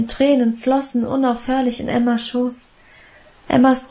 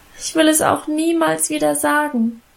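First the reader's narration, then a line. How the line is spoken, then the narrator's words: Whining, lamenting. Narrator (German): jammerte ich weiter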